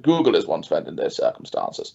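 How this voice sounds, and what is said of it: Posh-sounding voice. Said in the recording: “That sounded very posh.”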